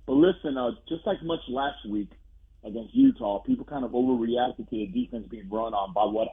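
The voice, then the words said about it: Hoarse, strained voice. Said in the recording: “My voice is still a little bit shot”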